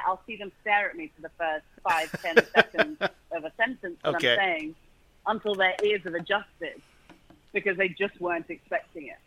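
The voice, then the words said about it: British accent. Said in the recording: “faking the British dialect, the accent ... the British accent”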